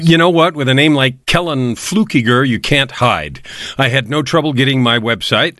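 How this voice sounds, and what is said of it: Polished radio-style voice. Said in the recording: “I love the radio voice you bring to the show. I feel like I'm on radio officially at this point.”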